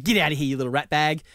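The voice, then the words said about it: Imitates another person's voice. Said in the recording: “it was a Trump impersonation”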